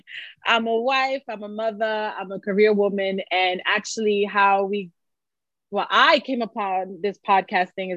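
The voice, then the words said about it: New York accent. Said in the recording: “I am from New York City, if you can't tell by the accent. ... New Yorican”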